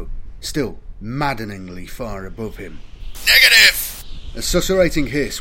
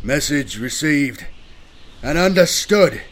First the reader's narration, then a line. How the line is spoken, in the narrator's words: Corpus shouted his reply in the hope that it might reach his commander